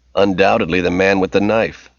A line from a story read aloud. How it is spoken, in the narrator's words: Leroy said with a chuckle